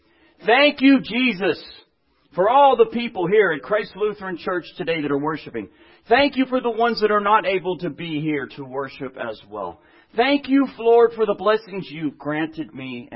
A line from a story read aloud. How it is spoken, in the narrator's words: She's the only one in the history of this church that on Sundays, every Sunday, sat back there and shouted out as loud as she could